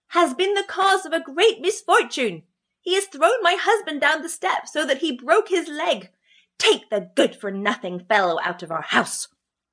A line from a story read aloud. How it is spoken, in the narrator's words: cried she